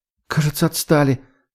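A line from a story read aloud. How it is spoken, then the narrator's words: Breathless exhale. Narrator (Russian): выдохнула Катя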